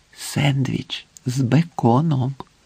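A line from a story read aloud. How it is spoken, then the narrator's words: Whispered. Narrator (Ukrainian): прошепотів Маджид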